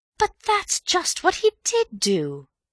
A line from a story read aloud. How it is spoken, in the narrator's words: cried Bill triumphantly